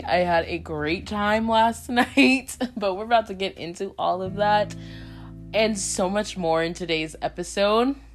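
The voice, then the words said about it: Raspy voice. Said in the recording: “my voice is a little raspy.”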